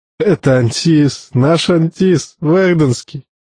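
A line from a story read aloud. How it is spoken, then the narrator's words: Laughing. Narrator (Russian): он засмеялся и добавил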